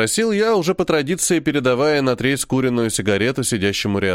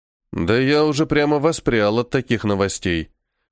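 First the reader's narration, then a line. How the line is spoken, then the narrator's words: Smirking snort. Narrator (Russian): хмыкнул я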